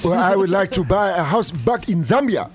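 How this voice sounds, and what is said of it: Put-on African accent. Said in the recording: “doing an African voice”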